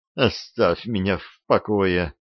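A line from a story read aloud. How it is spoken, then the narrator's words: Moaning. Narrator (Russian): простонала она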